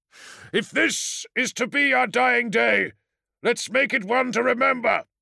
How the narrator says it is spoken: roared

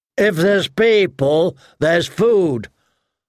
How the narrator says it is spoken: Hotpie said too loudly

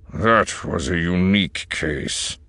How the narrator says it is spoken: Ullaren growled

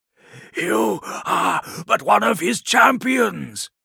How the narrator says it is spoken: rasped Eidolon

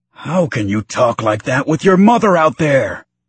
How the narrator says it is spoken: Kleeg Lars roared, his frustration boiling over

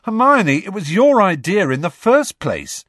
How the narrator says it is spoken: said Ron indignantly

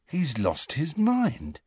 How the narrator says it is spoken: said Ron, in an almost awed voice

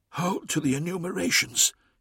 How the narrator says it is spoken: he whispered

